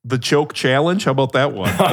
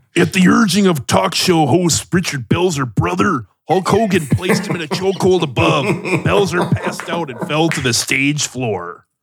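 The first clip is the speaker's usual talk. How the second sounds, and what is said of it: Hulk Hogan impression. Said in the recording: “Can you read a little bit of it in a Hulk Hogan voice right now?”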